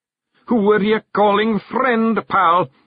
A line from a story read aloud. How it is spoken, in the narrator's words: roared the figure